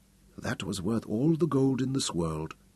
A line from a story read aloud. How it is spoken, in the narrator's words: she smiled up at him and whispered